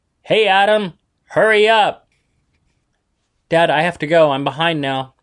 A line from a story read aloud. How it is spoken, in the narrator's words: David, Jose, and Juanita all yelled simultaneously